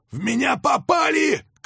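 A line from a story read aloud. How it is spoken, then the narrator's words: Shouting. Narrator (Russian): крикнул он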